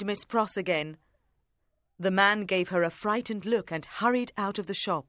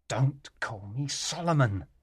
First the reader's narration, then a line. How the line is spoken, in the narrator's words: he whispered fiercely